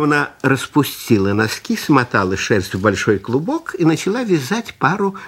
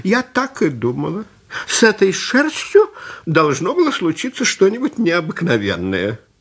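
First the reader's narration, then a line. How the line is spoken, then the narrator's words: Old woman exclaiming. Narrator (Russian): Старушка воскликнула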